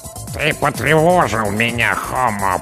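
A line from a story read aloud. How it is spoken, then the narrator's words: Creaky grating voice. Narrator (Russian): проскрипела командная голова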